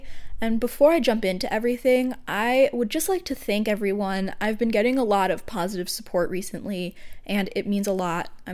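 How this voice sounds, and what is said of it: Congested voice from a cold. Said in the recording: “I have a bit of a cold today, so if my voice sounds a little funky”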